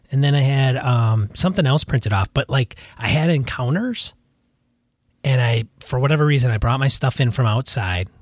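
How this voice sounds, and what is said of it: Raspy voice. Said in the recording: “my voice is all raspy”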